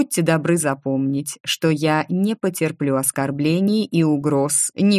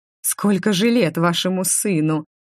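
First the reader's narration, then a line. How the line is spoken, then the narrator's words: Mocking question. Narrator (Russian): насмешливо спросила она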